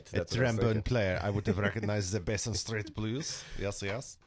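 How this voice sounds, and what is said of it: Bizarre mock French-Russian accent. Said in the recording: “I don't know why I'm talking like in this accent ... Some sort of bizarre French-Russian accent combination. I don't know. It's just a train wreck.”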